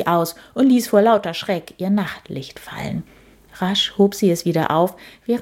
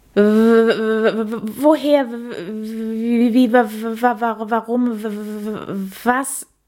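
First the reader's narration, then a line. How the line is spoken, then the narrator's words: Surprised stammering. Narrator (German): stammelte Käthe überrascht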